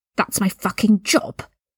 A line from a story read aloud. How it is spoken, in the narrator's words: Draco hissed